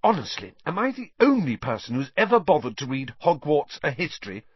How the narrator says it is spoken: said Hermione crossly to Harry and Ron

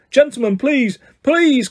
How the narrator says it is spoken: cried the assistant

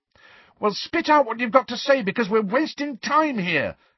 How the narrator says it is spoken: Harry shouted

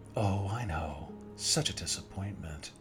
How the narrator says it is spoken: she said in her long, soothing tone again

